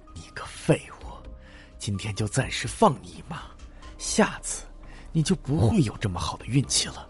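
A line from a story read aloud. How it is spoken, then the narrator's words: Through gritted teeth. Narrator (Chinese): 他嘴里咬牙切齿道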